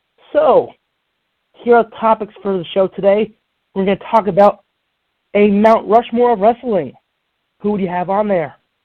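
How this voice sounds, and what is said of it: Voice slightly off from a cold. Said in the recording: “my voice is a little off, that's because, well, I've been hit with a little cold”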